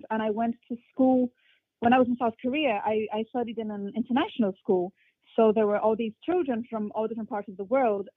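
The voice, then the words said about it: Mixed, hard-to-place English accent. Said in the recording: “I have an accent in English, which no one can really pinpoint where it's from ... my accent just became very mixed”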